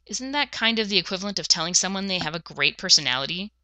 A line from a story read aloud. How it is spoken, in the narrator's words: He sneered